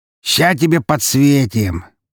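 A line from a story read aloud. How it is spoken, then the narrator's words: Amid burst of laughter. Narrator (Russian): послышался настоящий взрыв хохота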